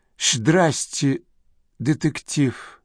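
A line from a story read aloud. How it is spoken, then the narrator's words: Weak, strained. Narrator (Russian): слабо выдавил Рон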